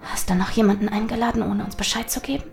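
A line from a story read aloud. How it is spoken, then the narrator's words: Hissed. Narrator (German): zischte Charlotte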